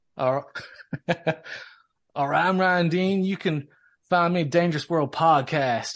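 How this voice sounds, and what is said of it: Put-on Southern US accent. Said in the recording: “why am I doing it so southern?”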